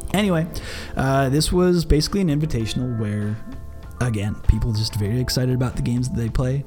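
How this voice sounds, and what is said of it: Strained, worn-out voice. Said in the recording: “I ruined my voice earlier”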